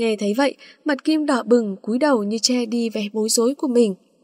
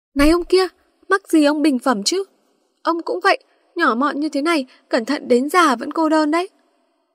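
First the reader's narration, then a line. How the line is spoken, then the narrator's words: Shouting. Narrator (Vietnamese): Kim la lên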